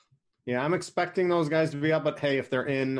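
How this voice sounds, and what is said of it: Usual voice. Nothing is said of it.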